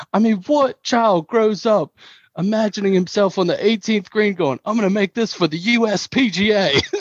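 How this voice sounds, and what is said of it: Put-on British accent. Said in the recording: “I'm gonna do a terrible British accent ... That's actually pretty good accent.”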